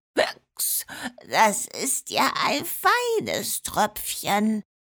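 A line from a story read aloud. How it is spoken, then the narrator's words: Dull slurring from depths. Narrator (German): lallte es dumpf aus der Tiefe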